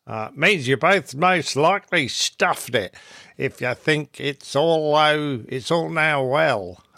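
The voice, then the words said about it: Put-on Australian accent. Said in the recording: “say it in Australian accent ... isn't so sure about the accent”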